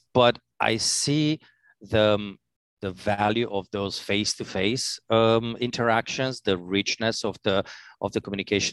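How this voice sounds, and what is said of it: Non-native English accent. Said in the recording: “I can tell from your accent that you're neither a native New Yorker nor a native New Jerseyan.”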